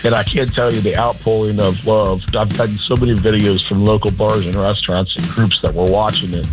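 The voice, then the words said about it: Hoarse, strained voice. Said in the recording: “Still a little hungover. I've lost my voice.”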